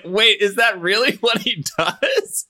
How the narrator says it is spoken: I laughed so hard

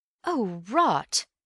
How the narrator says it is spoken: said Bill uneasily

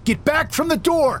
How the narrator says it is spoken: he shouted

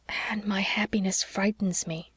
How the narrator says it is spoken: whispered Leslie

